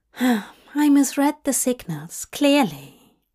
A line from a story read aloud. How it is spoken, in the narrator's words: Aziraphale sighed